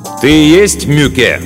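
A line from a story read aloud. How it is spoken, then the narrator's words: Loud question. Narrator (Russian): громко спросил Мартин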